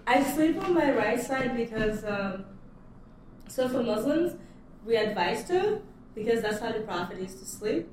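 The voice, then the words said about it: Noticeable non-native accent. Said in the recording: “It's my accent.”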